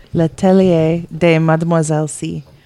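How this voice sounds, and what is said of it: Poor put-on French accent. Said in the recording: “my terrible French accent”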